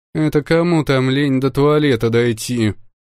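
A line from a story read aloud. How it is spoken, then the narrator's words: Getting worked up. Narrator (Russian): Начала заводиться Марси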